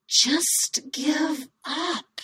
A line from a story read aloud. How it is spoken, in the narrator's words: hissed